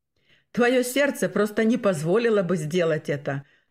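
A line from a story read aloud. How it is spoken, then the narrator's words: Laughing. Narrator (Russian): рассмеялся Бернгард Фаллер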